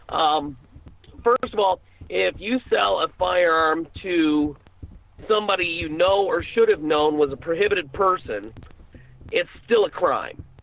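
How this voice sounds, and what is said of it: Slightly scratchy voice. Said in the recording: “my allergies got me while I was over in Europe, so that's why my voice is a little scratchy”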